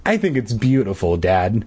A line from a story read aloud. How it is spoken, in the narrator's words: I said